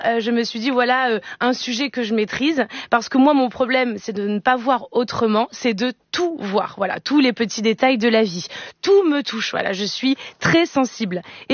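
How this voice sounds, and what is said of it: Wobbly put-on Marseille accent. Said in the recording (French): “j'essayais de vous imiter Eva... Avec l'accent de Marseille... des accents bancals”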